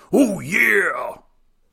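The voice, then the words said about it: Macho Man Randy Savage impression. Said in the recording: “do a little impression ... Pretty good Randy Poffo? ... Oh, it's the Macho Man, Randy Savage.”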